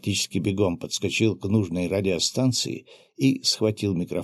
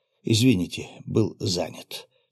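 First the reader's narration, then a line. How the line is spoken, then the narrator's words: Calm familiar voice. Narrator (Russian): спокойно проговорил знакомый голос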